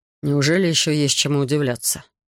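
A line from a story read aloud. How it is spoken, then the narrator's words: Dry question. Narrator (Russian): сухо спросил он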